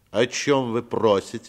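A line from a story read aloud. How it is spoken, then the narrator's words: Stern, slightly nasal question. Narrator (Russian): спросил строгим голосом и несколько в нос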